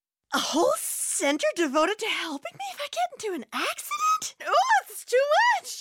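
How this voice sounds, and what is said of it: Easily overwhelmed, flustered character voice. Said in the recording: “this is my impression of an easily overwhelmed person”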